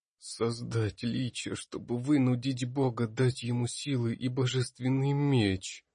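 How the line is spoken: Hollow, muffled, distraught voice. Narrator (Russian): глухо произнес Ботлер, сидя на полу в подсобке под лестницей, обняв себя за колени и мерно раскачиваясь

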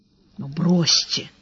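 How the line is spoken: Whispered reply. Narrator (Russian): так же шепотом ответил Сварог

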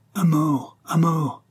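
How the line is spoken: Attackers shouting together. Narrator (French): s'écrièrent les assaillants

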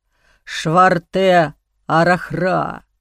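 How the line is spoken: Growling. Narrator (Russian): прорычал другой

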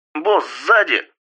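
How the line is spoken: Shouted warning. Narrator (Russian): прокричала Аннет

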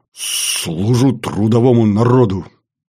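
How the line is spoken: Breathed out. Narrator (Russian): выдохнул Баранов-младший

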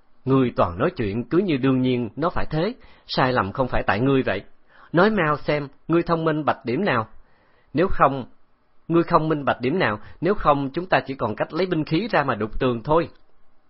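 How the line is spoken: Amused laugh. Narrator (Vietnamese): Từ Tử Lăng không nhịn được, bật cười

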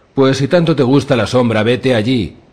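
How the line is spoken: Shout. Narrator (Spanish): le gritó Qual, la doncella, el de las mejillas lampiñas

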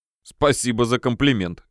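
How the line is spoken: Laughing. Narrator (Russian): рассмеялся я

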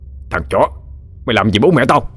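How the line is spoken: Shouting through gritted teeth. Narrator (Vietnamese): Gã Trường nghiến răng quát

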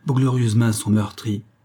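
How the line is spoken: Exclaimed. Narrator (French): s'écria Sargine

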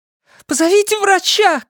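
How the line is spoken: Shouting. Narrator (Russian): кричала Синтия

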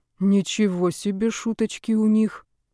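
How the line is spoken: Muttering under breath. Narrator (Russian): пробормотал себе под нос

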